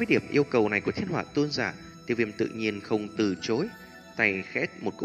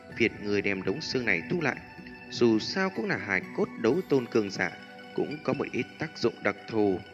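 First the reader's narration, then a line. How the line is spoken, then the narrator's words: Sighing. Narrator (Vietnamese): thở dài mà nói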